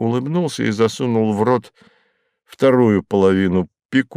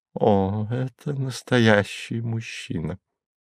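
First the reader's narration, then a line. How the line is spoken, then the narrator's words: Crystal-clear voice. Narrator (Russian): Госпожа Мозес произнесла хрустальным голосом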